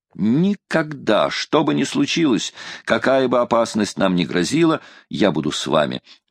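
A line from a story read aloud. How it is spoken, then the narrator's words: Exclaiming. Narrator (Russian): воскликнул Дорвард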